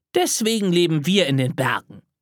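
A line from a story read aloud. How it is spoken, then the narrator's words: Plain. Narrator (German): sagte Tilda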